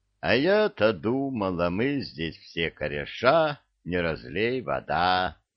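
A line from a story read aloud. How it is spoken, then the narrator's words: Disappointed grumble. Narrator (Russian): Разочарованно пробурчала правая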